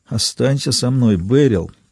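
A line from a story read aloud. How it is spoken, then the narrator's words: Quiet pleading. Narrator (Russian): тихо молил Ричард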